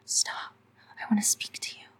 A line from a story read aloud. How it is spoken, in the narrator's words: she whispered between her teeth